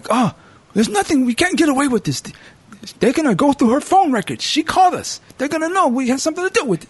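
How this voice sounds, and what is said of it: Mixed Bulgarian-Italian put-on accent. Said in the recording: “I'm kind of giving it that Bulgarian Italian accent. Just kind of mixing them up.”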